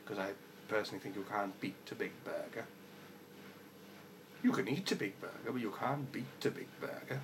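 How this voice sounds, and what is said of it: Put-on accent, unlike natural voice. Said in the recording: “doing this accent. It's obviously nothing like my actual voice.”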